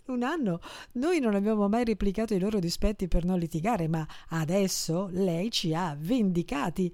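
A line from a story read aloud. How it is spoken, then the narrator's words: Laughing. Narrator (Italian): rise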